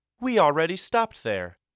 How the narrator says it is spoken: cheerfully chirped

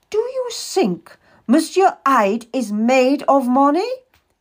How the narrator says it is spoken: He asks fiercely

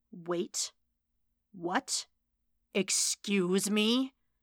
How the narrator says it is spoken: growled

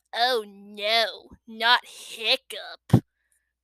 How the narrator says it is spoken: groaned Dog's Breath the brain, and most of the other boys

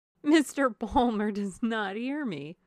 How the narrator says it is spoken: said, laughing

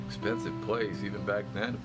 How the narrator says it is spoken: Quinn said, laughing

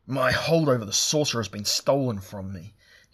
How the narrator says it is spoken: he roared

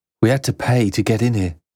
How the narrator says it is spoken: the boy said

